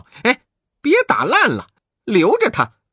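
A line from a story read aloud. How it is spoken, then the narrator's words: Calling out. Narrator (Chinese): 悟空叫道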